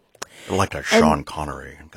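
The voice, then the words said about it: Sean Connery impression. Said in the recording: “That was my Sean Connery impression.”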